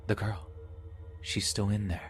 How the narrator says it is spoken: a voice angrily whispered

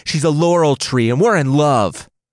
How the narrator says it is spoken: Apollo shouted through tears

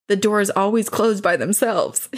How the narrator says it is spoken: said

